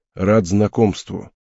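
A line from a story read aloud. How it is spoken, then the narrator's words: Gruff mutter. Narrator (Russian): буркнув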